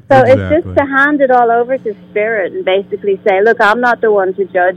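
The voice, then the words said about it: Irish accent. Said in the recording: “you have a wonderful accent. ... I'm from Ireland.”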